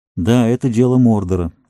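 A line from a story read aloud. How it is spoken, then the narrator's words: Sighing. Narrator (Russian): вздохнул Фродо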